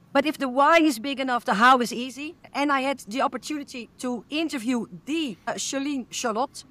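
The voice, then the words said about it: Dutch accent in English. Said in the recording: “English is not my native language ... I have a cute accent ... everyone loves our Dutch accent”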